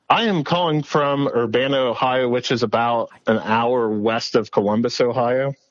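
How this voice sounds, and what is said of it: Philadelphia-like regional American accent. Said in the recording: “I almost asked if you were from Delco here in Pennsylvania ... has a similar accent to what you're putting down for us here today ... are you from New Jersey or right. Are you from Philadelphia ... You say Philadelphia like a true Philadelphian”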